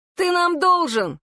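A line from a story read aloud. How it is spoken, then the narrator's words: Shouting back. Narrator (Russian): крикнул в ответ Джуниор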